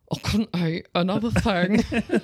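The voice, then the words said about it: Drunken slurred voice. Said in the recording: “this was just her drunk accent.”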